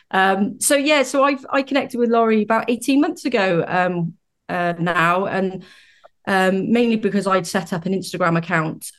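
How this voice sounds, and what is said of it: British accent. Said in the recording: “As you might be able to tell from my accent, I'm from the UK.”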